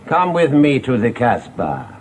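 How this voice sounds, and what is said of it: Foreign-accented Charles Boyer impression. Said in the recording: “Think of Charles Boyer ... They're all foreign ... It's a pity not to get the accent right ... you said that rather well”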